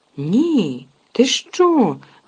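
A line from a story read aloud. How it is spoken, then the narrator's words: Exclaimed. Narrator (Ukrainian): вигукнув Рон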